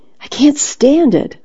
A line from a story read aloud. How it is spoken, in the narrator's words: cried out